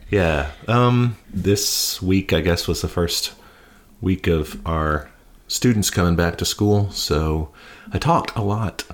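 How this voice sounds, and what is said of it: Gravelly, worn-out voice. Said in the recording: “if I sound more gravelly or... You sound like shit... my voice is a little worn out from that”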